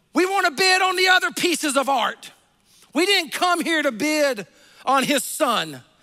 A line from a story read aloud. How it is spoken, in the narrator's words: a voice in the back yelled out